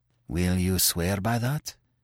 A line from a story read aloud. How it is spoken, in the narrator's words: asked Terry hoarsely